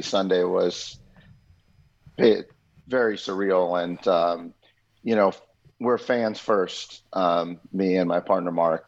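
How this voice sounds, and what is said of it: Raspy voice. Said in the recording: “my voice is still raspy”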